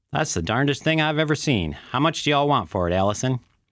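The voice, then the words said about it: Put-on Southern accent. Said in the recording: “adds a southern accent for the oil man's voice”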